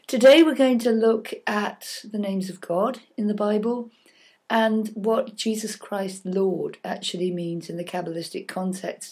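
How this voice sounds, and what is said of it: Husky, congested voice. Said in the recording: “Apparently I have a very sexy voice at the moment because I have a cold.”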